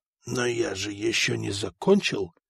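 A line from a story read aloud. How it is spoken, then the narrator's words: Whisper. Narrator (Russian): прошептал епископ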